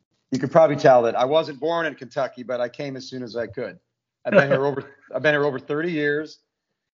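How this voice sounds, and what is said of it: Fast-talking Northern US accent. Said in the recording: “accent, and I still don't think I have one, but people tell me I still talk too fast and sound Northern.”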